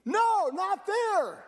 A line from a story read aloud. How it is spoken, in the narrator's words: yelled